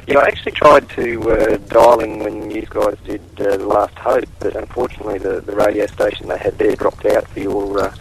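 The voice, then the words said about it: Australian accent. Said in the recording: “I'm from Australia ... Any second you're going to lose your accent”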